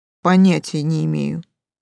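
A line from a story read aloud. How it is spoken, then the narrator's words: Dismissive snort. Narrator (Russian): хмыкнул Эйс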